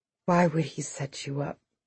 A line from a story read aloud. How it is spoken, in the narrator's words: Salt softly asked Lil D